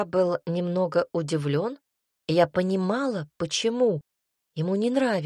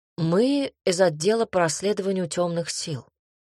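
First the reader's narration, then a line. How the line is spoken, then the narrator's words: Calm. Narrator (Russian): спокойно проговорил Горич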